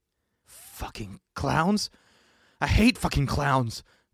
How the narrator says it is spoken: JB groaned to himself

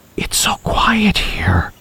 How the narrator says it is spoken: Bob whispered

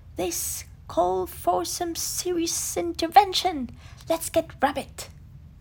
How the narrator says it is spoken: Tigger decided, his tail twitching nervously

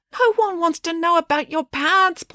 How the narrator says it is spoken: pleaded the mayor

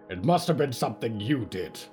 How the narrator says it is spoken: Solomon barked

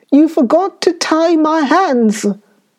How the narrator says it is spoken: he screamed

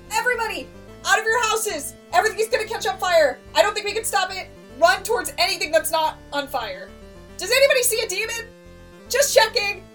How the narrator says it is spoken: I shout

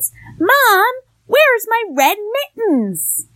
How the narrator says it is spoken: he shouts

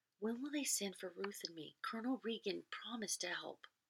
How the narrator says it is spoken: whispered in his ear

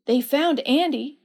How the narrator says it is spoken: exclaimed

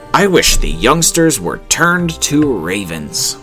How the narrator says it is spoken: He was in such agony lest the child should die unbaptized that he exclaimed thoughtlessly

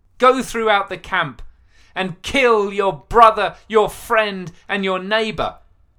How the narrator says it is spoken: bellowed Moses

